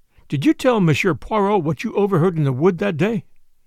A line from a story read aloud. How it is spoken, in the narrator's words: I said sharply